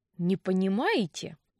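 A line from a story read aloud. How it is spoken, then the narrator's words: Through gritted teeth. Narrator (Russian): процедил Винс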